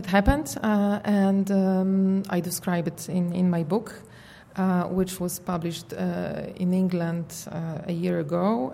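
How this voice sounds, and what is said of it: Polish accent. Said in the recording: “my incurable Polish accent”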